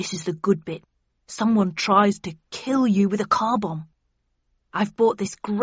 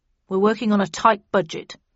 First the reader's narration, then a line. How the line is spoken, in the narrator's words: replied Snudd coldly